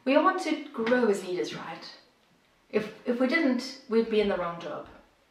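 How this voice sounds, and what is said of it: South African accent. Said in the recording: “if you're wondering about the accent, I'm originally from South Africa”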